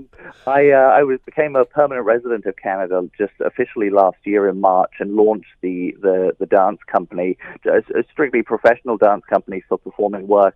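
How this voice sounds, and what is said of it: British accent. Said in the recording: “I have a British accent. ... It's a Hamilton accent.”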